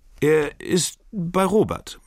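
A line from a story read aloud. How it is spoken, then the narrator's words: Stammering. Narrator (German): stammelt Ferdinande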